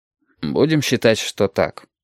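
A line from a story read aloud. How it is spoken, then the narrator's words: Gruff mutter. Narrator (Russian): буркнул я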